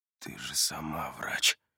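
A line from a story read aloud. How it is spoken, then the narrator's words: Mutter. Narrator (Russian): бормочет Адам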